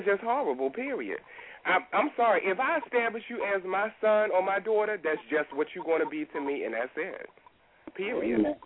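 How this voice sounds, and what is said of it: Congested voice with a cold. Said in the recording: “I have a cold.”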